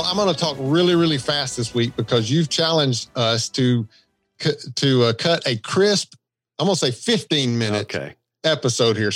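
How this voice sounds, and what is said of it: Southern American accent. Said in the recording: “my Southern accent... I've got a Southern accent”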